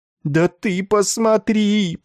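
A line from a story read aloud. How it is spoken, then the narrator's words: Groaning. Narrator (Russian): простонал Ессариан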